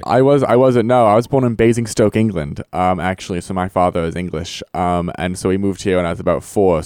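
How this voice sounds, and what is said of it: Mixed American and British accent. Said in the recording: “you did seem to have some sort of an accent ... I have this kind of pseudo accent that is kind of American, kind of British at the same time”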